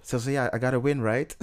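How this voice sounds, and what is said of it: Put-on British accent. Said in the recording (Dutch): “dan zet ze gewoon een Brits accent op”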